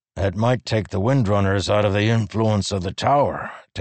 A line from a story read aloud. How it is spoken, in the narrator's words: Teft said with a grunt